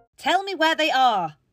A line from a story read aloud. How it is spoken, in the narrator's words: Clara shouted at the top of her voice